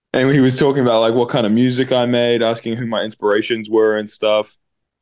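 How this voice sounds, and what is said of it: New Zealand accent. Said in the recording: “you're from New Zealand, right? ... I can hear it in your accent. I've got a bunch of friends from New Zealand, and you sound exactly like them.”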